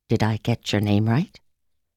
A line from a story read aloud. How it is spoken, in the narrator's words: Rachel Garrett asked me in a timid and uncertain tone